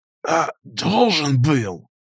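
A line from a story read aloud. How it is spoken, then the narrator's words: Hoarse wheeze, chattering teeth. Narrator (Russian): Хрипло просипел я сквозь дробно стучащие зубы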